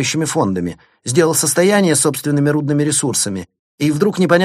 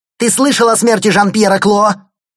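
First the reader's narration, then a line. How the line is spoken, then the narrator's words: Yelling, gangster impersonation. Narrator (Russian): заорал Лаик, все больше вживаясь в роль Тони Монтана в исполнении Аль Пачино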